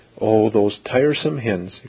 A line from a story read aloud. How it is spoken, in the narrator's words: exclaimed Mary